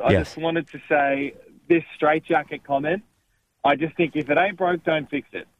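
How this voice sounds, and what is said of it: Australian accent. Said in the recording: “in Australia ... love that accent ... are you a Melbourne's man?”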